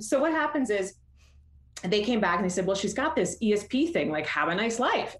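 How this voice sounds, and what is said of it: Canadian accent. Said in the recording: “I'm Canadian, so you're going to hear my accent come out in a couple of ways.”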